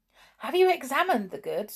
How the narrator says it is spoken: asked Dick eagerly

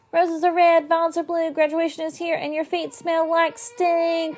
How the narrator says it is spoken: I shouted

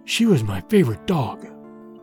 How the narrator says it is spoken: Petar whispered

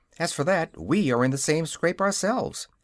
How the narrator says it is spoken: answered Dorothy, cheerfully

